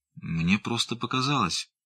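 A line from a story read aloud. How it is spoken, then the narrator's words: Mutter. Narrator (Russian): пробормотал он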